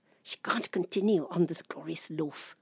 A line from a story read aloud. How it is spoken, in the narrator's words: our father kept muttering to himself